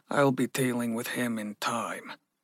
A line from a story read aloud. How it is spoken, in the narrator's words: Ragnar grunted